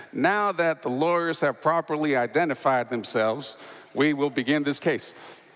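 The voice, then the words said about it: Smooth put-on Mississippi accent. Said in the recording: “in a nice, smooth Mississippi accent”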